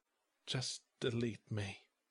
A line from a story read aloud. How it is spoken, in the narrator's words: I whispered